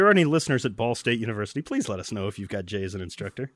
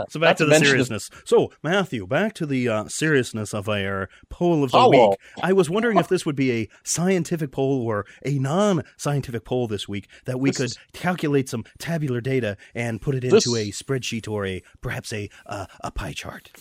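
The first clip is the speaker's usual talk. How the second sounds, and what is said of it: Imitates another person's voice. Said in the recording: “I need you to stop doing the Jay Gillette impersonation right now”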